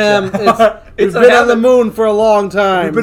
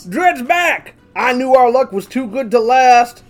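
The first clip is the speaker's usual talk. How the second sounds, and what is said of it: Character voice with a twang. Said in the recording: “you're still defaulting to that twang”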